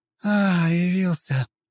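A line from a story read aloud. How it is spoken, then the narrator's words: Tired. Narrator (Russian): устало произнесла Кремейн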